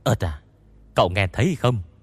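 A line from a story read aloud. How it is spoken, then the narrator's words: Whisper. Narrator (Vietnamese): Tôn Mập hạ giọng thì thào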